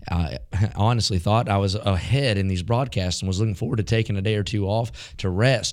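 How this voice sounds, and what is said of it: Weak, worn-out voice. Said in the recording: “preaching outside all week long in that damp air has gotten to my voice. And so my voice is very weak.”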